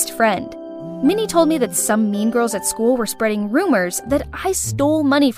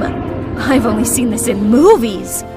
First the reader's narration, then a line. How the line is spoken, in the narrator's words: I gasped in shock